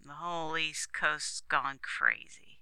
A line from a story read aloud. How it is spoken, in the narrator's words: said the copter man dryly